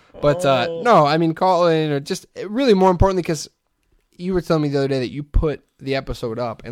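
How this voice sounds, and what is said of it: Usual voice. Nothing is said of it.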